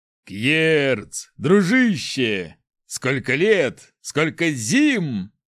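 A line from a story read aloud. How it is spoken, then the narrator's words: Deep bass voice. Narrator (Russian): пробасил огромный верзила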